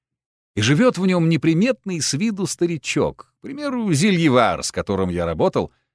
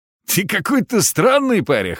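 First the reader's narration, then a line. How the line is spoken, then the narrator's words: Man's wry grunt. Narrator (Russian): хмыкнул мужик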